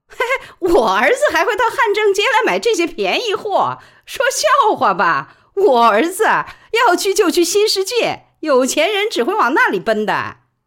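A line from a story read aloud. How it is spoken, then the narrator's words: Just after laughing. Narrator (Chinese): 笑完说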